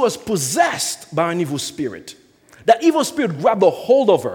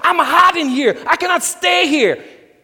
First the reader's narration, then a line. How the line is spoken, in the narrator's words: The lady was just screaming with a loud voice